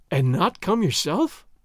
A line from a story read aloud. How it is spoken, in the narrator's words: Doña Catalina gasped